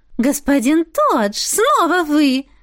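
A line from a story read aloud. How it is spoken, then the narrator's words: Glad exclamation. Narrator (Russian): воскликнула Эва, но не без радости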